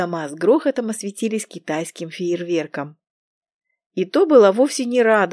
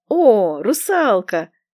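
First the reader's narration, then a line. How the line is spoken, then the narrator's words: Joyful call from below. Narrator (Russian): радостно отозвались снизу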